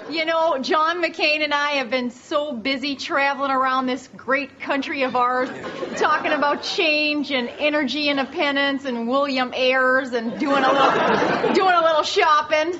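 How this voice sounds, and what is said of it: Sarah Palin impression with accent. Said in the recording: “a dead ringer for Sarah Palin ... her impression over the top is pure delivery, from the accent to the catchphrases”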